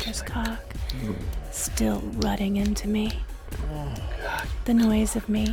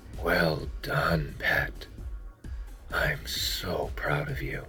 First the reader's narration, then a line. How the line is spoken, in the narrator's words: a murmured